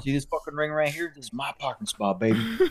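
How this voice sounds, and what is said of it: Put-on Texas accent. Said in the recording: “I keep giving them like a Texas accent.”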